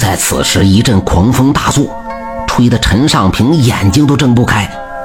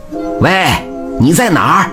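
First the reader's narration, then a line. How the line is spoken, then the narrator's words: Loud calling. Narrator (Chinese): 他大声的呼唤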